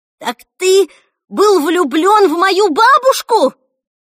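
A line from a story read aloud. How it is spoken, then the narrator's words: Shouted after someone. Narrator (Russian): крикнула Эльса ему вслед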